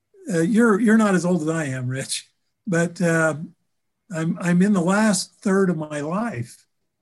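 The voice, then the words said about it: Slightly emotional voice. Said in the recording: “I'm getting a little emotional here.”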